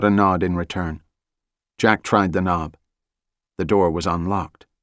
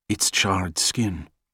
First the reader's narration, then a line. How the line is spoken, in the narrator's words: Rene whispered